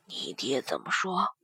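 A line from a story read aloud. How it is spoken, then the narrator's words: Lowered voices. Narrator (Chinese): 霍文德和柳元浩压低了声音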